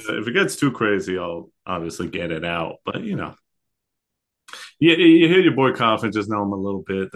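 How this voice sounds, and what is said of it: Slightly raspy, sick-sounding voice. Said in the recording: “you're sick ... my throat's feeling a little raspy ... I'm under the weather”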